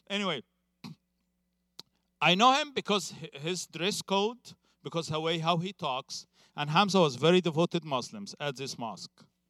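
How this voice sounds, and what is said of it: Speaks English with a foreign accent. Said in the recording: “Sorry, I have an accent.”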